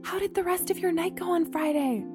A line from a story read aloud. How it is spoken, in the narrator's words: she asked in a hushed voice